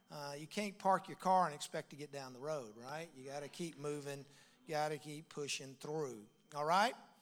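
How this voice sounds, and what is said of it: Deep Southern US accent. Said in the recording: “If you can't understand my accent, that's what it sounds like when you grow up in the deep South ... everybody from there talks like I do”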